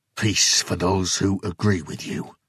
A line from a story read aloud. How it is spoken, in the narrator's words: Jason spat